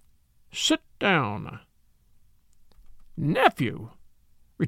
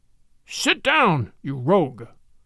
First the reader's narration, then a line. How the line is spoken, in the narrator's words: cried the old gentleman in a sudden, harsh voice like the barking of a dog